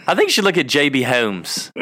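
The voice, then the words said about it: Exaggerated country drawl sounding British. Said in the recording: “It's like so country that it comes out like British or something.”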